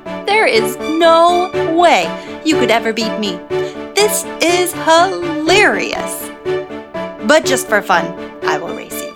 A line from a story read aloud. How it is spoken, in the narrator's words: The hare laughed and said